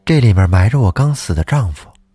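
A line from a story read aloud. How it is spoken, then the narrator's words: Flat, calm. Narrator (Chinese): 淡淡的说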